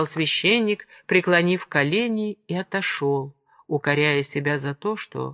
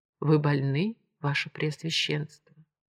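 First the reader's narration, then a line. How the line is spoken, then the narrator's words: Priest whispering. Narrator (Russian): священник прошептал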